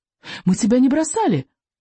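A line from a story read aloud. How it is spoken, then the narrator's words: Squeaked. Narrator (Russian): пискнул Рыбьенок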